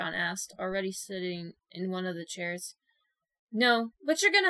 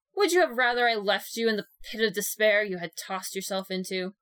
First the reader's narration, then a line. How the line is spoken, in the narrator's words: Mina snapped